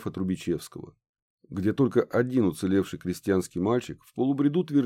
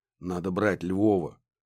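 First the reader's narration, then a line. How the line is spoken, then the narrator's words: Hoarse. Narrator (Russian): хрипло сказал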